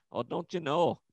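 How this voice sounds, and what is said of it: Put-on Minnesota accent. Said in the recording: “That dumbass accent. ... they sound like Bobby's mom from Bobby's World ... the Minnesota accent”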